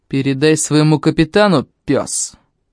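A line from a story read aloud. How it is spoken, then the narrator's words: Growled. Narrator (Russian): рыкнул Найвилл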